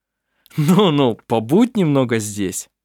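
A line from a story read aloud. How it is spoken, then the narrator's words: Laughing. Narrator (Russian): засмеялся Арф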